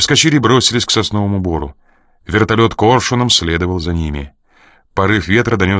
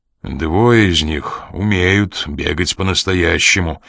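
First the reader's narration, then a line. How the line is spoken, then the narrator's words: Gloomy remark. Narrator (Russian): мрачно заметил Коридон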